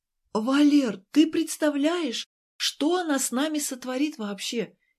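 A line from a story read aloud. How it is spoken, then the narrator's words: Frightened pestering. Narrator (Russian): испуганно приставала Ася к Валерке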